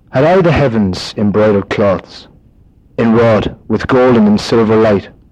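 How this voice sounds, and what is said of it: Irish (Limerick) accent. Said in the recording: “I'll do it on my own accent”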